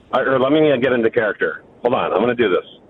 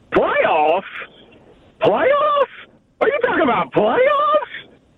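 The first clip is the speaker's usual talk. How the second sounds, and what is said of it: Imitates another person's voice. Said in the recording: “that a good impression ... No, it's a great impression. ... Yes, it's good. ... It's actually so good, I think you're playing audio.”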